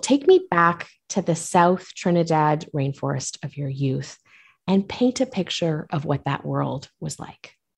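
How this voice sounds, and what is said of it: Polished radio-host voice. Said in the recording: “I love your radio voice.”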